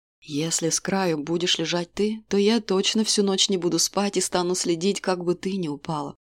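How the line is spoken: Calm reply. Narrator (Russian): спокойно отозвался король

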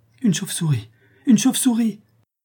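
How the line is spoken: Frantic exclamation. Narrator (French): s'écria Barbara éperdue

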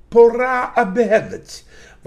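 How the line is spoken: Exclamation. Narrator (Russian): воскликнул он

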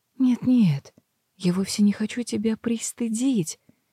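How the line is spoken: Soft ingratiating near-whisper. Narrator (Russian): продолжила целительница вкрадчиво и тихо, почти полушепотом

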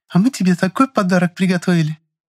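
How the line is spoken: Conspiratorial giggle. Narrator (Russian): Заговорщицки хихикнула Люся, не выдержав необходимости хранить такой страшный секрет

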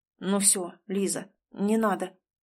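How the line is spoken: Muttering. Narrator (Russian): бормочет Чижов

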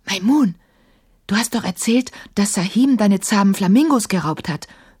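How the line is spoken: Whisper. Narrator (German): flüsterte Emma

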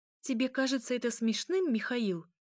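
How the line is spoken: Exclamation. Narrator (Russian): воскликнула она

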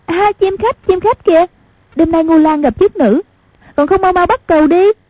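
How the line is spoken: Excited cry. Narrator (Vietnamese): Hoàng Dung kêu lên

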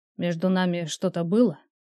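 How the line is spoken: Unexpectedly hoarse question. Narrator (Russian): с неожиданной хрипотцой спросил я

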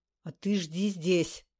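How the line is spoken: Growl. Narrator (Russian): рыкнул он на Кныша

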